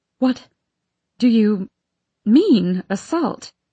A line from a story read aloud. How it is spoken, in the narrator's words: Vanessa stutters, unable to comprehend what we're being told